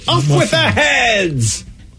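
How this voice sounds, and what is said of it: Queen of Hearts impression. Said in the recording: “that's a great impression. ... I'm working on my Queen of Hearts there.”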